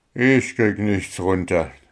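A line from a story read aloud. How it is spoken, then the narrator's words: Sigh. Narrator (German): seufzte Puh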